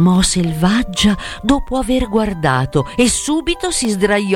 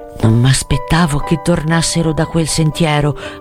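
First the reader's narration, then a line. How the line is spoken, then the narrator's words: Murmuring. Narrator (Italian): mormorò Brandano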